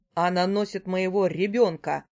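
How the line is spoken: Barked. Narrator (Russian): рявкнул Чернов на Романа

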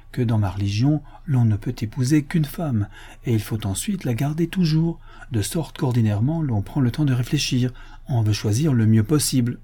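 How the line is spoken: Timid remark. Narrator (French): observai-je timidement

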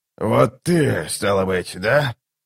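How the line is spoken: Hoarse question. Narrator (Russian): хрипло спросил прибывший

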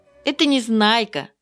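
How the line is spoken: Laughing reply. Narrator (Russian): ответила Заинька и засмеялась

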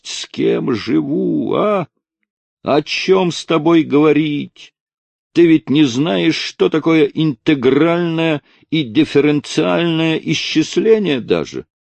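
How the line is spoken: Cold summary. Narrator (Russian): холодно резюмировал Мишка

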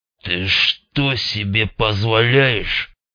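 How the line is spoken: Hissed through teeth. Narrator (Russian): сквозь зубы процедил он

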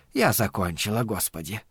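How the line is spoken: Heavy sigh. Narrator (Russian): Абагейл тяжело вздохнула

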